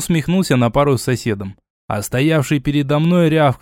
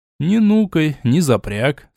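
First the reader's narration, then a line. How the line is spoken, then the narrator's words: Calm. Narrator (Russian): спокойно сказал я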